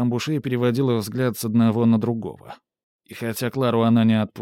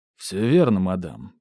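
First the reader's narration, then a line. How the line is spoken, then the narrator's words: Deep bass voice. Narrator (Russian): пробасил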